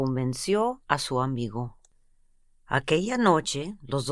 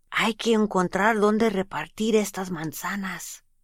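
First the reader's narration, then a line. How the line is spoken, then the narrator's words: Whispered. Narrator (Spanish): Pedro susurró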